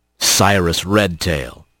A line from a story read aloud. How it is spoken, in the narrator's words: Sergeant Hawk rumbled